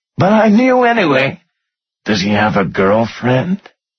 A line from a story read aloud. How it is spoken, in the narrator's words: she gasped